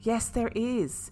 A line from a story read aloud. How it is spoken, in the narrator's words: exclaimed